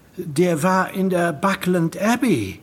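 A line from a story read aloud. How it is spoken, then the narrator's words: Calling out. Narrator (German): rief Alex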